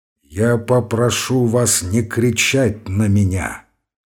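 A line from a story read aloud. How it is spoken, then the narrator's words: Muffled, drawn-out voice. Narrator (Russian): глухо и протяжно произнес Ромашов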